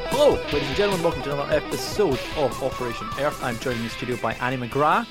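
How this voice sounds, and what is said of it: Scottish accent. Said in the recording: “I couldn't understand mics. Your accent ... I am the Scottish one”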